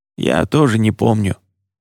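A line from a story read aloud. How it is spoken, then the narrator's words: Hoarse. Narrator (Russian): хрипло подтвердил Джулиан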